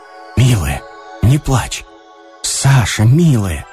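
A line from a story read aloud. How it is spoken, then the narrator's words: Pitiful, gentle repetition. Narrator (Russian): твердил он жалостно и мягко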